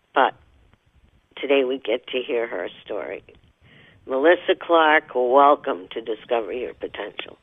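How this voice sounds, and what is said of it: Slightly hoarse voice. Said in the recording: “A little hoarse today”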